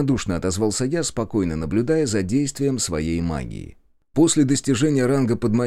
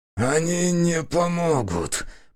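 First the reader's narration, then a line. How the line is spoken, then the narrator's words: Hoarse wheeze. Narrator (Russian): прохрипел он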